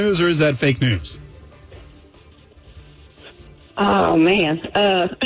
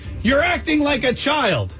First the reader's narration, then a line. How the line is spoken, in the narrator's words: Rochester police officer while yelling